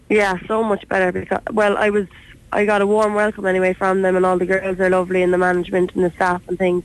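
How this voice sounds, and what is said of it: Irish Cork accent. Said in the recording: “another Cork head, as I should say, another Cork accent”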